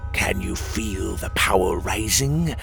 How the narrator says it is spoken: the Zaxlin hissed

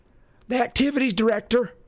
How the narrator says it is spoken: Clarice said impatiently

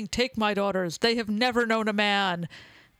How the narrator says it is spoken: yelling

